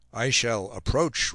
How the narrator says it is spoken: replied the captain

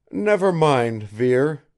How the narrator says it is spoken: I exclaimed impulsively

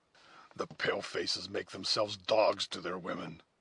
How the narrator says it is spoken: muttered the Indian in his native language

